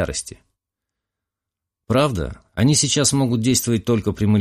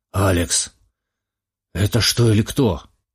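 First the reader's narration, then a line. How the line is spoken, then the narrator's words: Hoarse question. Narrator (Russian): хрипло спросил Ризо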